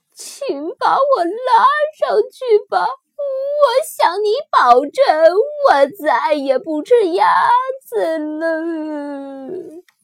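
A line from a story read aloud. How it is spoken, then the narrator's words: Crying, pleading. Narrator (Chinese): 狐狸哭着祈求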